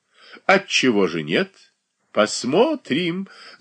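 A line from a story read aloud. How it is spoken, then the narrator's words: Ringing laughter. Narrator (Russian): звонко засмеялась Софья Андреевна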